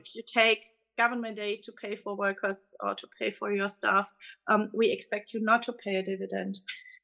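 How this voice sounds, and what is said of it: German-accented English. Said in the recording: “you can clearly tell from my accent that I'm coming from Germany”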